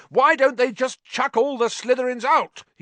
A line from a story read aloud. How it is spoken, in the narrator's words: He roared